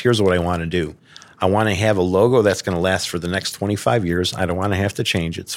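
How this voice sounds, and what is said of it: Chicago accent. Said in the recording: “He was a fellow Chicagoan, so as soon as he heard my accent ... us Chicago guys”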